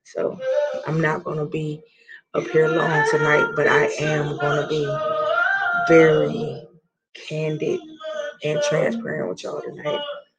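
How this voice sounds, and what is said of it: Raspy, hoarse voice. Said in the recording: “hear the raspiness in my voice.”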